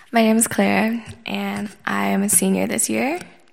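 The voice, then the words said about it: Slightly scratchy voice. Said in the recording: “My voice is a little bit scratchy because I was out late last night”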